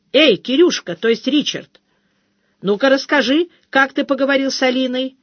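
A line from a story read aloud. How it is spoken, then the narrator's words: Shouted through window. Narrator (Russian): крикнула я в окно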